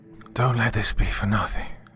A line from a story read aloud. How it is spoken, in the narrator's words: Livingston gasped as the last bit of air got pumped out of the room